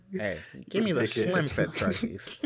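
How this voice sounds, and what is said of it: Imitates another person's voice. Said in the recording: “why I give LeBron that voice? That's mad disrespectful”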